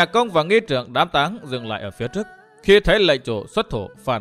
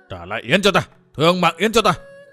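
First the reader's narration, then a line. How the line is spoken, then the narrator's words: Old man shouting. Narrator (Vietnamese): Lão hét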